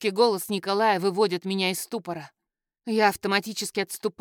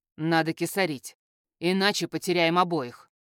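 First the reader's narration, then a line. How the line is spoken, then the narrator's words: Confident, cold and clear. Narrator (Russian): говорит он уверенно, холодно и четко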